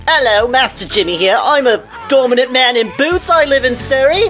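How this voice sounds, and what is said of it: Put-on British accent. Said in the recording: “There's my fucking British accent.”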